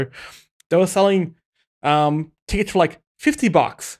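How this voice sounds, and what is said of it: Usual voice. Nothing is said of it.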